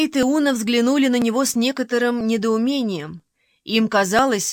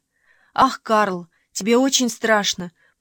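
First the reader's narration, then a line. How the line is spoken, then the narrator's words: Whispered. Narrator (Russian): прошептала она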